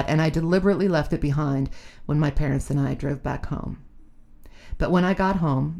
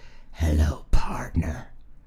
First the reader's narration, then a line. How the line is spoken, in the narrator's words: his big felt grin whispered